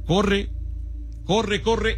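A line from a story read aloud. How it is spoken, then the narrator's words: Shouting. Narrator (Spanish): Daniel comenzó a gritar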